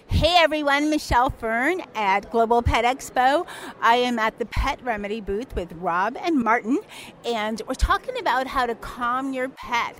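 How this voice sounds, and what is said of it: Flat American accent. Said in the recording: “have better accents than we do here in America ... pardon my flat accent. It's much flat, not as lovely”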